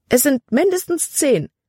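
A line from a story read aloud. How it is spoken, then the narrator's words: Exclaiming. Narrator (German): rief sie aus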